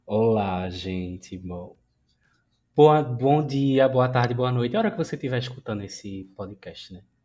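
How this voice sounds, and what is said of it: Noticeable accent. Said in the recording (Portuguese): “olha essa voz... escutem esta voz. Apreciem este sotaque. Ouçam esta menina falar.”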